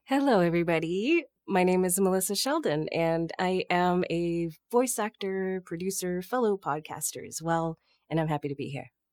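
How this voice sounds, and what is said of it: Polished radio-style voice. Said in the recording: “she has an excellent radio voice”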